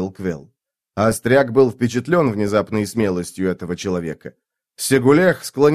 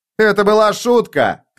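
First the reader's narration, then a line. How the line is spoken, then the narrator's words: Shouting. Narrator (Russian): крикнул Сигулех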